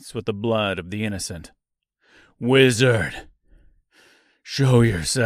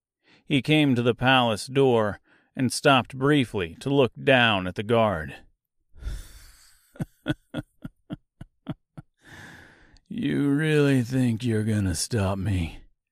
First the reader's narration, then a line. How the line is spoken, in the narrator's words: asked the woodman with a chuckle